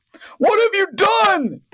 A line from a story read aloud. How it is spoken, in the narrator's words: the headmaster bellowed